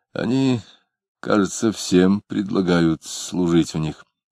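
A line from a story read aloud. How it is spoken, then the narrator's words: Muttering. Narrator (Russian): Самгин пробормотал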